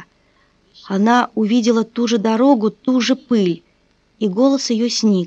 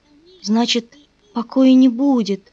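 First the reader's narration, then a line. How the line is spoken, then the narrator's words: Moan. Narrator (Russian): простонала она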